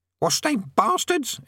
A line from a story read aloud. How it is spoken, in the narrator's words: it croaked